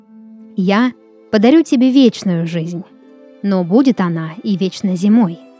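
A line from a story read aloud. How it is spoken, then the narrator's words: Hoarse rasp. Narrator (Russian): прохрипел всадник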